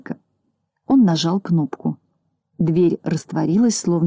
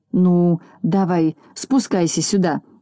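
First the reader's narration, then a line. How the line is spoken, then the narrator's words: Shouted. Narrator (Russian): крикнул он Пончику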